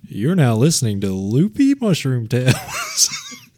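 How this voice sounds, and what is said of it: Put-on announcer-style voice. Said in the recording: “I'm sorry for doing a voice.”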